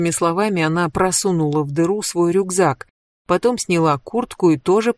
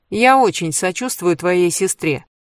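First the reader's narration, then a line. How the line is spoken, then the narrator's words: Cold statement. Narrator (Russian): холодно заявила Кэндис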